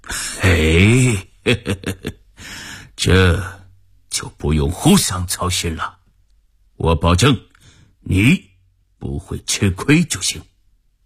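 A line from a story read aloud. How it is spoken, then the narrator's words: Smiling, genial. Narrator (Chinese): 福田笑眯眯地说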